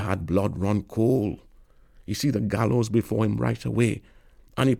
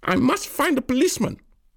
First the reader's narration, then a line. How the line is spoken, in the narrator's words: the woman screech